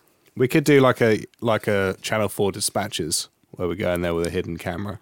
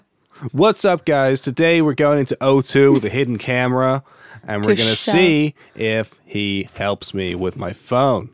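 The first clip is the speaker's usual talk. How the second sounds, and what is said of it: Put-on American accent. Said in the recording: “you just did like a kind of American accent.”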